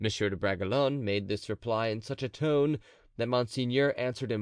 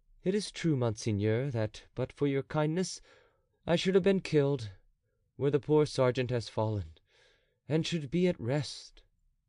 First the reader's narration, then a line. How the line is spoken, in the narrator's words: The young nobleman smiled sadly and replied to the duke